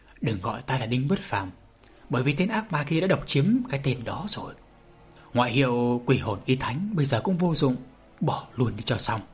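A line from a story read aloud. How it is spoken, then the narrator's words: Old man's rustling low voice. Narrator (Vietnamese): Lão ta giọng nói đã rì rào như gió thổi, khi hạ giọng lại càng khó nghe hơn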